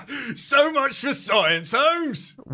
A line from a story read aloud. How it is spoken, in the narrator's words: Watson laughs